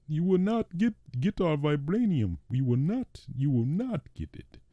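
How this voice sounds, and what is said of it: Put-on accent, villain voice. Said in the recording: “this is my attempt at an accent.”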